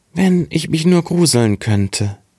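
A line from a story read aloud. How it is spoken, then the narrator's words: Very sad. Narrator (German): sprach ganz traurig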